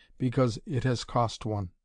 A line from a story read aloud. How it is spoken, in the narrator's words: said, his voice trembling slightly